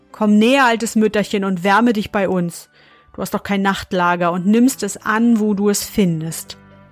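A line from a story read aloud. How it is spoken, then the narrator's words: Calling out. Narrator (German): Einer von ihnen rief ihr zu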